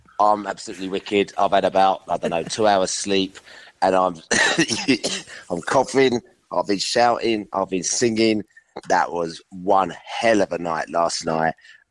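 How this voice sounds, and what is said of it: Strained, worn-out voice. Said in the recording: “as you can hear from my voice... the difference between like Billy's voice and yours, it was quite something”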